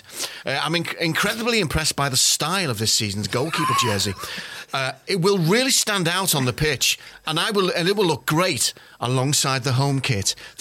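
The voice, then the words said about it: Imitates another person's accent. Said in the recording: “I hope I get the accent right”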